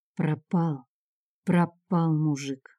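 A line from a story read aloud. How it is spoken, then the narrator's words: Quiet, eerily distinct voice. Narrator (Russian): молвила она негромко, со странной, пугающей отчетливостью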